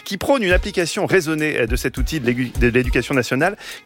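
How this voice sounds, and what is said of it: Put-on sing-song southern French accent. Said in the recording (French): “je prends l'accent du sud. ... j'ai l'accent chantant”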